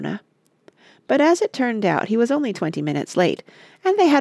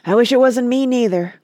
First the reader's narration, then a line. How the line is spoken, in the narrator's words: croaked Willie gloomily